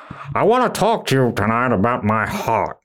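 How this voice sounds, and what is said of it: Imitates another person's voice. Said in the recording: “do his voice”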